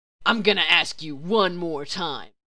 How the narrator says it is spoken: Detective Hardass growls

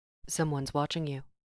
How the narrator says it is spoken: Natasha murmured

